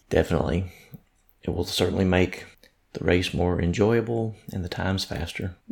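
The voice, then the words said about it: Tired, strained voice. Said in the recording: “my voice is a little bit tired from all the screaming”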